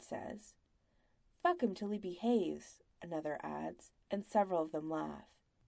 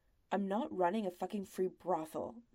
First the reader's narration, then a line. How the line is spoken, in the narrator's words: the master snaps